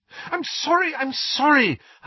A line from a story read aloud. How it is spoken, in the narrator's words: Hermione cried